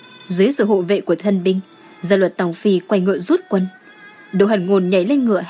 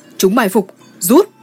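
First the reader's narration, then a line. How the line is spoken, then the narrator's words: Alarmed ringing shout. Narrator (Vietnamese): Mặt Gia Luật Tổng Phi biến sắc, hét vang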